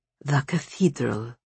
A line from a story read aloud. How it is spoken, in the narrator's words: murmured the bear